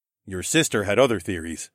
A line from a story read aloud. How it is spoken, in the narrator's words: I said